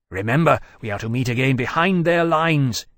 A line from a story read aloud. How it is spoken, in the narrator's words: he called urgently